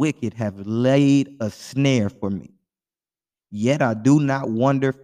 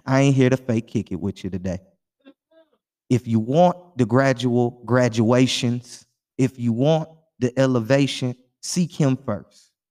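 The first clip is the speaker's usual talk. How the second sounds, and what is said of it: Houston Texas twang. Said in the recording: “let me add my Houston twang in there”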